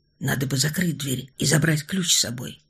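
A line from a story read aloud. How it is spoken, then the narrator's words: Mumble. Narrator (Russian): пробормотал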